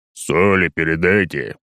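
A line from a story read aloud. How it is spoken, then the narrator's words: Deep unfamiliar bass. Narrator (Russian): Густым незнакомым басом раздается вдруг откуда-то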